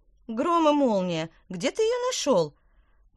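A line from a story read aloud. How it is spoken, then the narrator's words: Witch exclaiming. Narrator (Russian): воскликнула яблоневая ведьма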